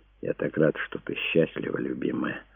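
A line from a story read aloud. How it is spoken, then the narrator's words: Whisper. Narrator (Russian): прошептал ей Энди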